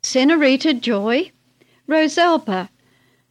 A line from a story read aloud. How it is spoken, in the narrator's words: Joy and Charlotte exclaimed incredulously